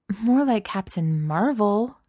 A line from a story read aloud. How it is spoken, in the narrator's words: Kate sighs